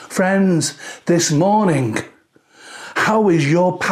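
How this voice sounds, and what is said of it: Usual voice. Nothing is said of it.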